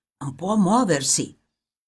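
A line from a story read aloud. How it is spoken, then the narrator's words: Deep-voiced whisper. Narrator (Italian): qualcuno con voce grave gli sussurrava negli orecchi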